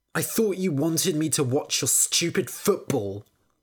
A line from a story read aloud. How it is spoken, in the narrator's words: Willow spat